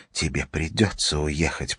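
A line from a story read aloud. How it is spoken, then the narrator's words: Whispering. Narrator (Russian): прошептала она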